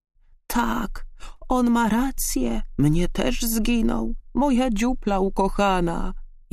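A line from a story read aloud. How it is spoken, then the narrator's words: Saddened owl groaning. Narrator (Polish): jęknął zasmucony puchacz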